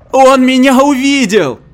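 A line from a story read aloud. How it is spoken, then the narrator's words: Woman screaming hysterically. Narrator (Russian): истерически вопила женщина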